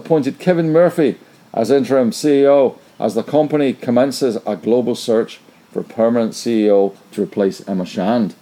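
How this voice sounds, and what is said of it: Put-on Northern Irish accent. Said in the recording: “I should probably do this in an Irish accent. ... That was more Northern Ireland.”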